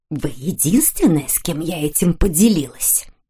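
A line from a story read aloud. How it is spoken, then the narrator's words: Whisper into ear. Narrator (Russian): прошептала миссис Уильямс соседке на ухо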